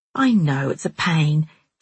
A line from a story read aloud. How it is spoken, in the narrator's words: Jilly said in a friendly, dithery voice